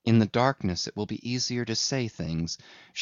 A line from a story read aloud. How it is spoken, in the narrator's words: whispered to herself